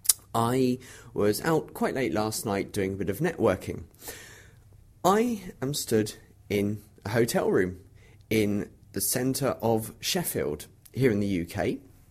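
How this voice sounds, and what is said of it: Tired, worn morning voice. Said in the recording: “as you can probably tell from my voice, making a bit of an early start to the day, having had a bit of a late night... my voice is not the reflection of a cold”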